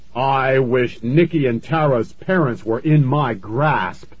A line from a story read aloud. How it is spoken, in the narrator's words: Fears shouted at the same time